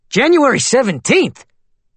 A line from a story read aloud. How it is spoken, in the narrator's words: Kelson shouted from the back of the courtroom